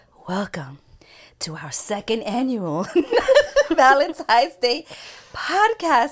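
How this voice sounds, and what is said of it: Sexy voice. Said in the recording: “my sexy voice.”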